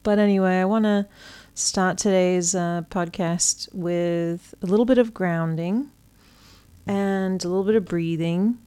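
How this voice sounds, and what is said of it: Mixed British and American accent. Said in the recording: “my voice has changed a little bit. I'm back in my British roots ... Sometimes I'm going to sound very American, and sometimes I'm going to sound quite British ... I'm pretty much both at this point”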